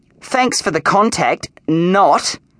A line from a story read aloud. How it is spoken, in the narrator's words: said Allison crossly